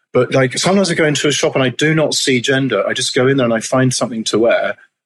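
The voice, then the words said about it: Transatlantic, English-sounding accent. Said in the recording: “being a transatlantic person, I can't seem to shake my souvenir accent ... people sort of think I'm English”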